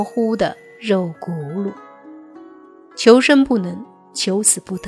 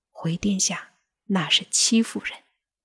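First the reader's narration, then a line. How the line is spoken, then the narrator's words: Eunuch answering quietly. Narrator (Chinese): 宦官低头小声的回答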